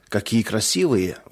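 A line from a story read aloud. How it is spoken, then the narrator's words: Breathless exhale. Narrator (Russian): выдохнул Леня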